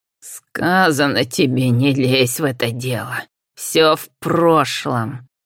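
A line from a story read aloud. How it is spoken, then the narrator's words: Hiss. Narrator (Russian): шипела Абразина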